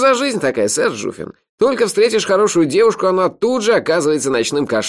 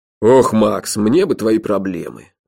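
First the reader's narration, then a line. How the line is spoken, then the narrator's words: Tired. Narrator (Russian): устало сказал Джуфин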